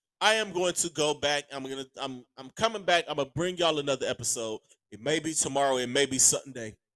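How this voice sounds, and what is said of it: Hoarse, strained voice. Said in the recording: “My voice is shot. I got to get my voice together... My voice is shot... I got to go get me some tea. This whiskey's not working.”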